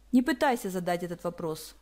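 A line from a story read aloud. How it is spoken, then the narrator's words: Cold. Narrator (Russian): холодно произнес он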